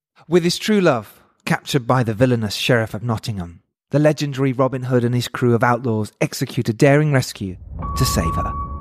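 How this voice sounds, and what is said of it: Dramatic movie trailer narrator voice. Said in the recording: “do it in your film trailer voice ... You've got a good trailer voice.”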